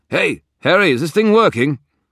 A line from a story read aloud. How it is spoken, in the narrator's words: I tried to calm my pounding heart and focused enough will on the radio to let my voice carry through